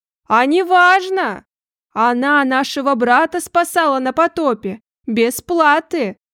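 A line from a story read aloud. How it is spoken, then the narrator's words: Man shouting. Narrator (Russian): крикнул тот же мужик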